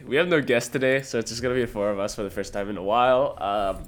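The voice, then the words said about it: Sick, rough-sounding voice. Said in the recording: “that was my Gollum impression because I'm fucking sick ... I'm sick”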